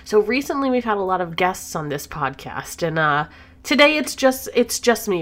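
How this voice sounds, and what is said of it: Sick, under-the-weather voice. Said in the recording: “I am a little bit under the weather, so please excuse my voice”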